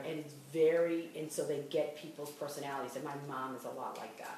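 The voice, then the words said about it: Boston accent. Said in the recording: “that Boston accent. I had somebody make fun of my accent”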